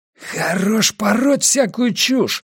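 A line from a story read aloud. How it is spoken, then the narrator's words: Hoarse wheeze. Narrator (Russian): прохрипел он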